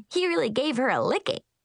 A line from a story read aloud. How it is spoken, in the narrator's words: she giggled